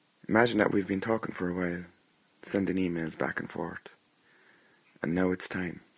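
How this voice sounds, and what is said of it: Noticeable foreign accent. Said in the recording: “I hope you can understand my accent.”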